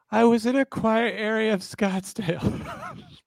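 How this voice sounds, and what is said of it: Terrell Suggs impression. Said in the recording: “in my Terrell Suggs voice”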